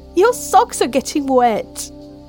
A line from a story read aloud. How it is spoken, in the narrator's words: Mel laughed